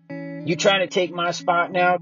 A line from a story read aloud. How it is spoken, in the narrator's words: Cameron yelled